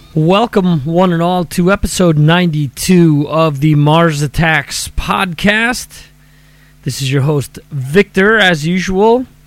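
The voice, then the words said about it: Voice still slightly affected, strained. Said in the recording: “As you can tell, my voice is still a little affected ... I was really hurting that night”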